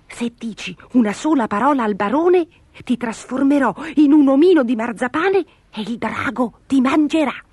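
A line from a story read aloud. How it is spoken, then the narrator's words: Whispered in ear. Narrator (Italian): Gobolino le bisbigliò all'orecchio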